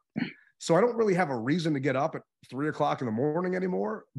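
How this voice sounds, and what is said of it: Slightly raspy voice. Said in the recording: “I can hear it in your voice, man. Your voice still sounds a little raspy”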